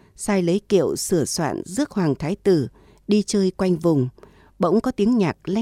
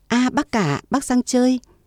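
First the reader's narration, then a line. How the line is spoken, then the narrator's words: Hurried joyful exclamation. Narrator (Vietnamese): Tô Trung Từ vội reo lên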